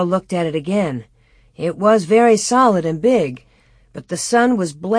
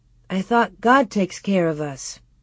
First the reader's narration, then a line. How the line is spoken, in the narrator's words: Laura said faintly